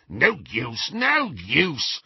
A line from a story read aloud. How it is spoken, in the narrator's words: snarled the goblin